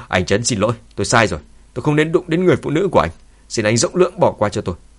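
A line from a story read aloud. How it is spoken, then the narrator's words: Angry woman. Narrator (Vietnamese): Cô ta giận dữ nói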